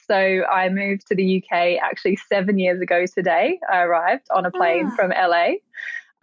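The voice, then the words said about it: Australian accent. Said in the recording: “as you'll quickly pick up from my accent, I'm also Australian like you.”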